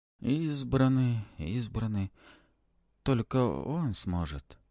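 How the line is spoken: Delirious mumbling. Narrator (Russian): продолжает в бреду бормотать хранитель

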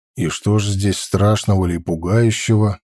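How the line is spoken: Sighing. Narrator (Russian): Она вздохнула

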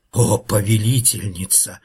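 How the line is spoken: Timid hiss. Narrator (Russian): робко прошипела старшая гадюка

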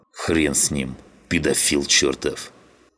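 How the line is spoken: Growled. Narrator (Russian): Прорычал он

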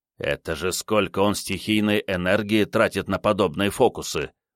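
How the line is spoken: Grumbling mutter. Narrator (Russian): буркнул Рю

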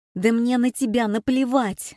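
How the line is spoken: Shout. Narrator (Russian): закричала Маруся

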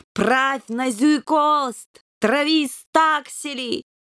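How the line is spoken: Yelling through cupped paws. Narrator (Russian): сложив лапы рупором, заорал

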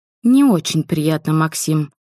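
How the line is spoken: Sighing. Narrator (Russian): вздохнула

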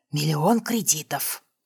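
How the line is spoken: Whispered repetition. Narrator (Russian): Понизив голос до шепота, повторила я

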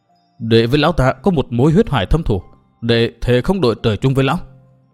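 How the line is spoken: Through clenched teeth. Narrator (Vietnamese): Từ Mã Minh đáp qua kẽ răng nghiến chặt

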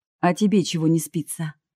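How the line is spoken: Amused snort. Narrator (Russian): хмыкнул Руслан

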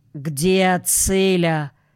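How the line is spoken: Father, stern question. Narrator (Russian): Отец строго спросил

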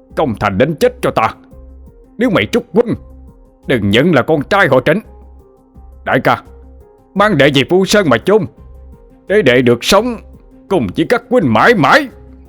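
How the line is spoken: Screaming. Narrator (Vietnamese): Trịnh Minh đã gào lên

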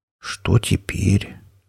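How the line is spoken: Quiet deflated whisper. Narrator (Russian): тихо прошептал грозный пират, у которого уже давно пропало всевозможное героическое настроение

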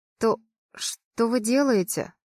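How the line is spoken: Hoarse question. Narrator (Russian): спрашиваю хрипло

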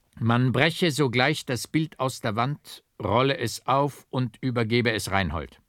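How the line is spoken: Strong commanding voice. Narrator (German): befahl mit starker Stimme

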